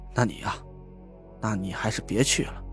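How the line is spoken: Sighing. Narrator (Chinese): 我叹了口气，说道

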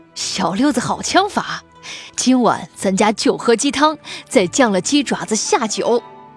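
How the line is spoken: Smiling, pleased. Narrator (Chinese): 沈清源…笑得弯起眼睛…说

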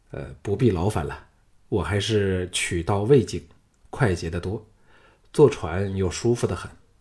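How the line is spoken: Calm, detached. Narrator (Chinese): 项少龙发觉自己心中真的没有恼恨他，淡淡的说

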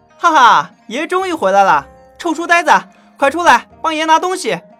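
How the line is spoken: Laughing loudly outside. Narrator (Chinese): 一个声音在门外大笑道

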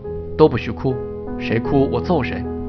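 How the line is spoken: Low threatening voice. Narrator (Chinese): 大高个儿先是压低声音威胁说

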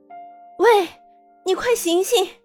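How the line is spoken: Shouting. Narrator (Chinese): 他如何叫喊

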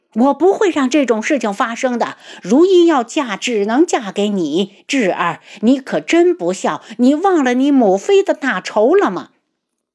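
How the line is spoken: Loud, stunned. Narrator (Chinese): 绵姨一呆，大声道

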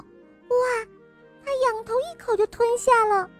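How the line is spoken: Amazed exclamation. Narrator (Chinese): 猫咪惊叹地喊道

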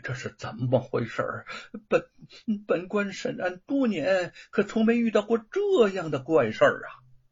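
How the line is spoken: Scornful soft laugh. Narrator (Chinese): 吴承恩蔑视的轻笑着

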